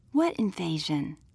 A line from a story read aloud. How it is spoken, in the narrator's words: Jasmine whispered back